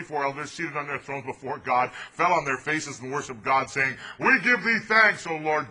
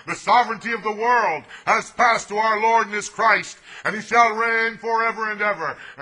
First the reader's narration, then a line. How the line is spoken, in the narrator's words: voices heard in heaven shouting